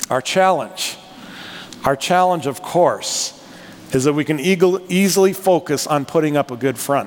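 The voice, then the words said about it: North Dakota accent. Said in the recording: “I'm from North Dakota. Can you tell by my accent, North Dakota?”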